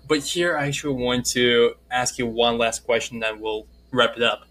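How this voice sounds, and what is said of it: Russian accent. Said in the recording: “my Russian accent. You know, back in the days, it was much worse than what you hear right now”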